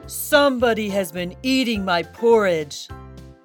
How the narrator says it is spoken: In his great big voice, he growled

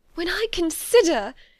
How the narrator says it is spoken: she added in a yet more agitated voice

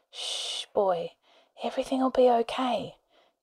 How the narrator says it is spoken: Charlie whispered

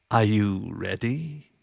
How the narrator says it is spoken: he asked in a winter-dry purr

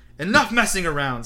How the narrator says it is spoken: snarled Moody

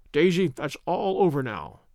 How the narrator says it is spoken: he said, earnestly

